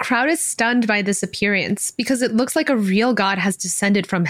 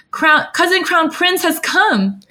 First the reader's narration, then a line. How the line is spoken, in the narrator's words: Qirong's face grows red with excitement as he shouts